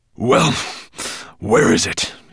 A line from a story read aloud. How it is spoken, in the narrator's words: panted